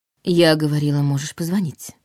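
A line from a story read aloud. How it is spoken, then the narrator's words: Mocking correction. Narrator (Russian): поправила она, но это прозвучало скорее насмешливо, чем недовольно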